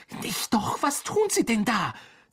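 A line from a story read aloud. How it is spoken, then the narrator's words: Hissed. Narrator (German): zischte Harry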